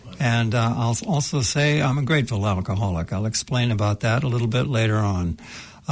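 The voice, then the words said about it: North American accent. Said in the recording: “You can tell from my accent that I hail from North America”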